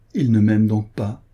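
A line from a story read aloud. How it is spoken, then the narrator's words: Sighed. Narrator (French): soupira-t-elle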